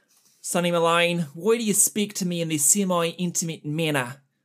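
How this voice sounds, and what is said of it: Put-on New Zealand accent. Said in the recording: “Oh, it fell apart at the end there. There's my New Zealand accent ... Very good. At least to me, nobody who's never been to New Zealand sounded pretty good.”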